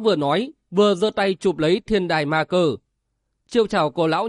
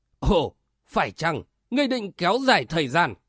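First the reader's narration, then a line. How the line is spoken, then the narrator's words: Harsh, sneering laugh. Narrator (Vietnamese): Lão già che mặt cười gằn giọng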